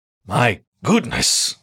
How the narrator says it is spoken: the elderly fox gasped

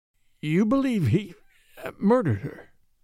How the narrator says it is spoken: said Van Alden, hoarsely

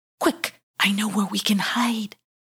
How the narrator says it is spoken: whispered Why Not-y, who was feeling a little bit guilty about blaming Won't-y

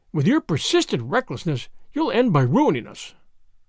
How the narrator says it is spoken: the latter exclaimed bitterly

